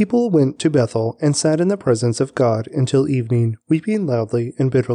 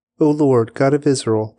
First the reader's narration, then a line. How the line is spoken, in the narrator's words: they cried out